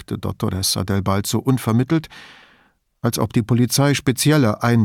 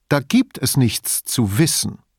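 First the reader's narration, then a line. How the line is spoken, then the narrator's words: Slow, stressing last word. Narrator (German): sagte sie langsam, das letzte Wort betonend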